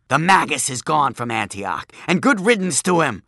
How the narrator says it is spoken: screeched the crone

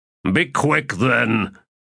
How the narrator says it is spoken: Torrent said in a growl

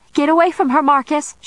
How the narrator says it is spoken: shouted Em

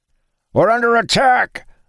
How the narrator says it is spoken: a voice called out

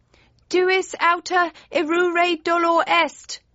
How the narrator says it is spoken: yelled Friday

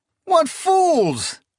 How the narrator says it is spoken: Ingaiaban cried

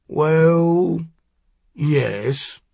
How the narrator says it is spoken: Hausman said slowly

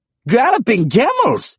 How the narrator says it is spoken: he exclaimed

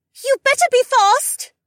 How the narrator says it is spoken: Becca screamed after me

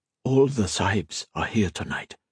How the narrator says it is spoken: Tharpa whispering

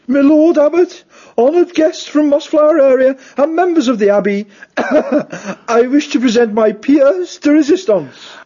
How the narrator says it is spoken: announced, in a somewhat pompous squeak

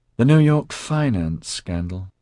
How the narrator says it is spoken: said with a sigh

